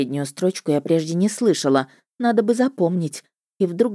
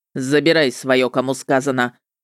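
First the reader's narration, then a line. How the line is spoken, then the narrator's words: Sudden bark. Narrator (Russian): рявкнул вдруг он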